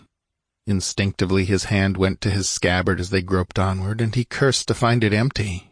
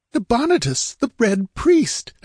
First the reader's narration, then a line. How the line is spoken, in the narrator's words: exclaimed Murillo, his brain a dizzy vortex of whirling amazement